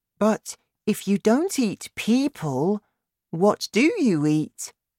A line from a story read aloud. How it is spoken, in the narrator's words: Sophie asked